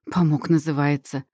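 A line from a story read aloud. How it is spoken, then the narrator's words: Snorting, scornful woman. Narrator (Russian): фыркнула хозяйка приюта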